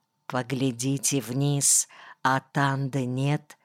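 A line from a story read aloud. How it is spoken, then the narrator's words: Whispered. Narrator (Russian): прошептав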